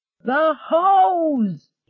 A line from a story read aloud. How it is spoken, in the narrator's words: shrieked